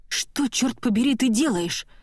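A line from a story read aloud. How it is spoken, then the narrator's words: Whispered question. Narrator (Russian): спрашиваю я шепотом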